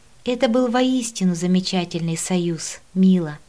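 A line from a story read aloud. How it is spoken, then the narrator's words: Dreamy sigh. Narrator (Russian): Мечтательно вздохнула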